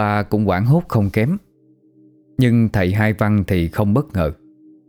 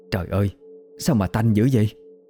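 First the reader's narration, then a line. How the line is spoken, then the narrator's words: Shaken, trembling, nose covered. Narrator (Vietnamese): Thím ba sững người, lấy tay bịt mũi, giọng run run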